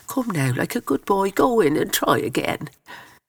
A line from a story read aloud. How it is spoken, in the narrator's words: One of the nuns begged McNally